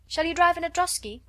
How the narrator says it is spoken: cried

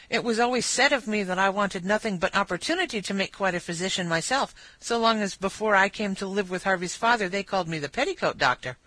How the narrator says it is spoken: With increasing animation, therefore, she cried

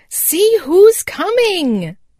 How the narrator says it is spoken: cried Happy Jack

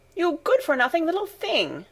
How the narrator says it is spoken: exclaimed Data angrily

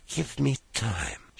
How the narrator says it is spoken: she softly said

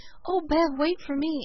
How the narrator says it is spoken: kept gasping out the contradictory sentences

